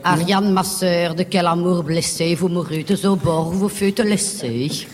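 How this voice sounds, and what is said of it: Put-on Belgian French accent. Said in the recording (French): “en rigolant, avec l'accent belge”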